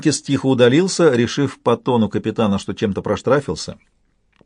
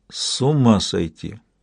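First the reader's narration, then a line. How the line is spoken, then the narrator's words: Barely audible. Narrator (Russian): едва слышно проговорил вслух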